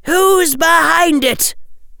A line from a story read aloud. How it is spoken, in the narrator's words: shouted Amelia to the broomstick